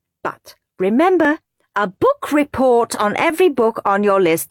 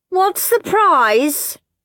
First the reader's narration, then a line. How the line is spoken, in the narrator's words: shouted Moody Margaret